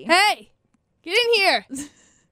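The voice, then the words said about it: Yelling, demanding call. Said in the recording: “do you like my inviting tone of voice... I like when you invite people on our podcast by yelling at them... my demanding tone”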